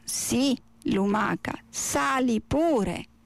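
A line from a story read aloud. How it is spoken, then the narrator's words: Plain reply. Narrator (Italian): rispose la tartaruga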